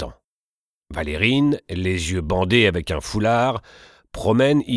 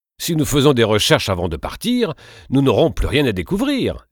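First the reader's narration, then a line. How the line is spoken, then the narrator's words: Exclaiming. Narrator (French): s'exclame Martin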